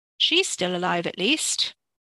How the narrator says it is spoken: Layla said dryly and with a trace of bitterness

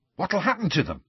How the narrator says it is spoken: said Ron eagerly

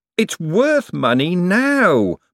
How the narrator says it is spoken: Moist wailed

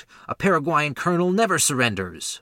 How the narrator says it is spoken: cried

